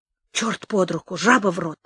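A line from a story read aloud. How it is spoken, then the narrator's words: Angry muttering. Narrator (Russian): Мы злились, бормотали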